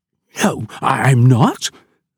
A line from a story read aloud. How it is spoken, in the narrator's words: spluttered Pete